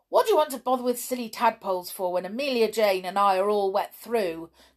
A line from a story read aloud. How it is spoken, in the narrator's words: cried the cowboy doll crossly